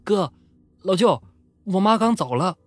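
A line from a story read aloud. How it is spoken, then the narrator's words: Loud shout. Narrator (Chinese): 老二就在灵堂里面大喊起来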